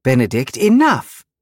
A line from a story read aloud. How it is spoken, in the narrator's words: Louisa snapped